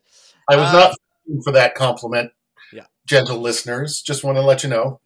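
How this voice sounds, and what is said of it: Canadian accent. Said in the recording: “any Canadian accent”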